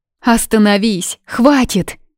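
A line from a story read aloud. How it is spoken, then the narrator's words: Frightened scream. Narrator (Russian): закричала, вздрогнув от непонятного страха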